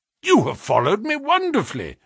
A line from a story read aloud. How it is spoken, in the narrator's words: I exclaimed